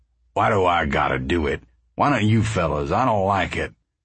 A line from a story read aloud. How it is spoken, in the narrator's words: Uncle John said sullenly